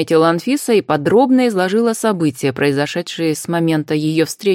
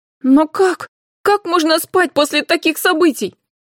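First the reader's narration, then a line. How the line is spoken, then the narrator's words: Emotional shout. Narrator (Russian): эмоционально выкрикнула Карина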